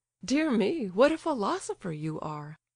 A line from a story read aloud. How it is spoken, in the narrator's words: laughed the prince